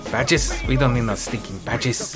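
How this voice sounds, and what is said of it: Thick put-on accent. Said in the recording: “it's such a thick accent. I couldn't tell what you just said... Are you doing a Peter Lorre impersonation?”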